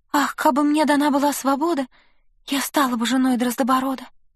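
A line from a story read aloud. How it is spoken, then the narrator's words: Sighing whisper. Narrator (Russian): Королевна вздохнула и прошептала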